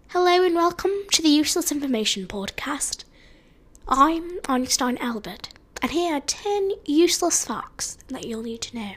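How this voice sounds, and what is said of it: Bad put-on British accent. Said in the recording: “I just have a really bad British accent for it... It's bad, but I guess I can work on it”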